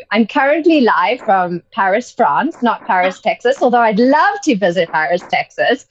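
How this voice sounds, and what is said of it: British accent. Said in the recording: “you have, you know, the UK accent”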